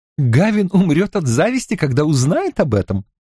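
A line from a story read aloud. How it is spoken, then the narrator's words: Said, then laughing. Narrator (Russian): сказала она и рассмеялась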